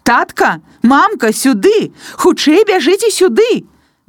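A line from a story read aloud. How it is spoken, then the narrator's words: Shouting. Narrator (Belarusian): Прамень радасці пачала крычаць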